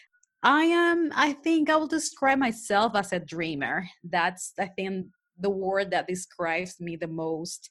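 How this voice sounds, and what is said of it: Spanish-accented English. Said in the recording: “as you can tell, I have an accent. That's because I'm from Panama, Panama City. Mine actually native language is Spanish.”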